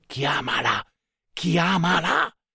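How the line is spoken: Prompting in undertone. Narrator (Italian): suggerendogli sottovoce

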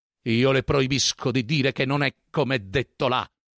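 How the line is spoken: Shouted. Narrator (Italian): le gridò

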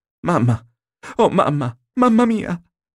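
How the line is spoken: Sobbing cry. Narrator (Italian): gridò rompendo in singhiozzi

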